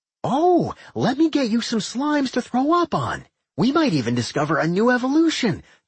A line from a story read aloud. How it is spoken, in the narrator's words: Doc exclaimed